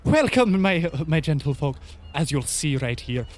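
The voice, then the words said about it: Put-on Irish accent. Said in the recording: “This one's not Indian... He sounds Irish.”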